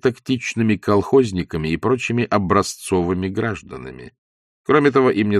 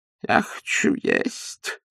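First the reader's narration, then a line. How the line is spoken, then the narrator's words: Moaning. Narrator (Russian): стонал Паниковский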